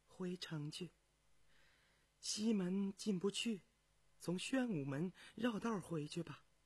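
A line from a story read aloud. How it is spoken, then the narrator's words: Soft sigh. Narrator (Chinese): 苏顺清轻叹一声起来，对教父说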